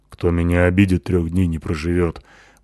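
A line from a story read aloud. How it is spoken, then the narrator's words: Grumbling. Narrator (Russian): пробурчала Натаха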